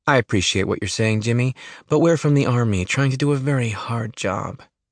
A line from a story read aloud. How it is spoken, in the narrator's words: she says, her voice sweet and calming